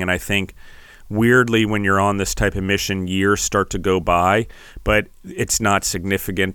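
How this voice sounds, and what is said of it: Strained, fading voice. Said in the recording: “Apparently, I'm losing my voice.”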